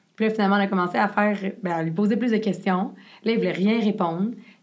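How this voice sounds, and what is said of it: French spoken with English-speaker accent. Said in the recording (French): “mon bel accent anglophone”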